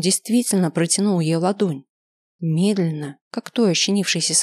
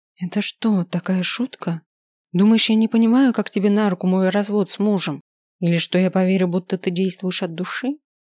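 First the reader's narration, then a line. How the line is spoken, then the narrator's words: Calm voice. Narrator (Russian): ее голос звучал спокойно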